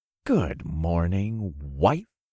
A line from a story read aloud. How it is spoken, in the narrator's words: I murmured